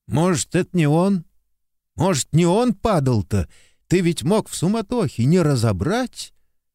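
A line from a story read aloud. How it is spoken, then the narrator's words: Timid hopeful question. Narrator (Russian): С робко прозвучавшей в голосе надежды снова спросил Лопахин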